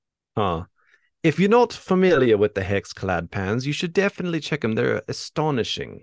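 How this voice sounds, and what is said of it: Usual voice. Nothing is said of it.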